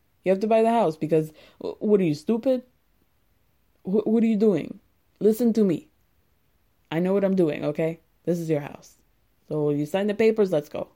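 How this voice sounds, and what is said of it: Imitates another person's voice, odd accent. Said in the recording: “I don't know what accent that was, but that was the best Andre I could do”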